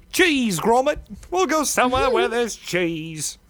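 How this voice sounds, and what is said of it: Poor impression of Wallace cartoon voice. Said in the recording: “It's the worst impression I've done of him”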